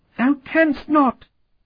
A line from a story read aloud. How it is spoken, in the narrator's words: The voice was the squeal of a small animal, a rabbit maybe, or perhaps a rat